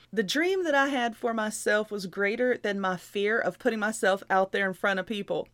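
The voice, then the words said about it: Loud country accent. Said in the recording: “my countrified self and my accent, you know, and I'm loud”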